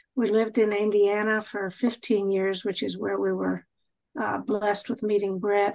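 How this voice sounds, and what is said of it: North Carolina accent. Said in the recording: “I'm from Charlotte, North Carolina. You can hear it in my voice.”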